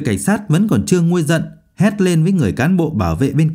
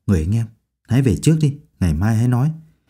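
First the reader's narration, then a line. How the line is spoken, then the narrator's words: Soft coaxing. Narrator (Vietnamese): vừa kéo vừa khẽ khuyên nhủ cậu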